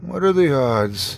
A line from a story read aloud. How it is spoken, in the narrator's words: I muttered